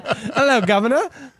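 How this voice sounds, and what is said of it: Put-on British accent. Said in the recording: “break out the British accent”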